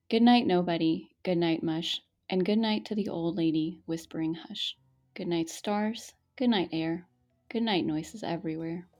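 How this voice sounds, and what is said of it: Gentle kindergarten teacher reading voice. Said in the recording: “let me get my kindergarten teacher voice on.”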